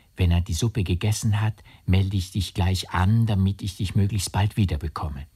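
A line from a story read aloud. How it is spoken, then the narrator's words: Whispered. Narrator (German): flüsterte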